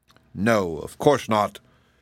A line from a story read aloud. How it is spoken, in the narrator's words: growled the Scarecrow in the bear's form